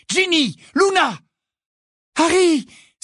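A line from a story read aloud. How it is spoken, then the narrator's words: Exclaiming. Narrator (French): s'écria Hermione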